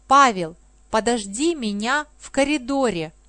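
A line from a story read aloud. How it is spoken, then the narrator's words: Plain. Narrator (Russian): сказала она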